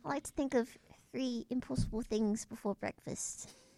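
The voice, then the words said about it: British accent. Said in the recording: “The British accent.”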